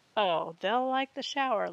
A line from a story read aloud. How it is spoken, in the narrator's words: laughed Olivia